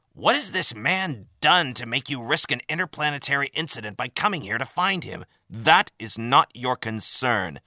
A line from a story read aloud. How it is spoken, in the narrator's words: spat Tembeck defensively